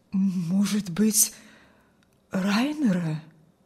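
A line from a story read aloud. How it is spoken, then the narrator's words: Old man's trembling objection. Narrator (Russian): Осмелился старик возразить дрожащим голосом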